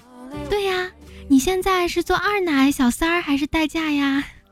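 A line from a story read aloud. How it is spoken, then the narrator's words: Shouting. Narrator (Chinese): 我大喊说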